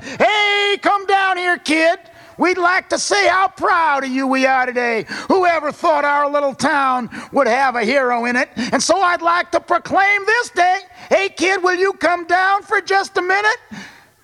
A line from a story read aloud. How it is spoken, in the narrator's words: And Mayor Lowry shouted